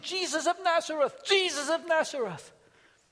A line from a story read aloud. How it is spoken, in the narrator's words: he starts shouting